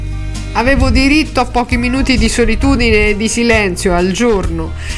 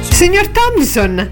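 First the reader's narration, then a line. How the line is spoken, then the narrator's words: Exclaimed. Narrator (Italian): esclamò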